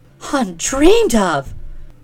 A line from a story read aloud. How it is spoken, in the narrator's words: cried Mercedes, in dainty dismay